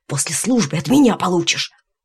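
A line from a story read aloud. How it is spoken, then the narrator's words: Hissed. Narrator (Russian): Гришка прошипел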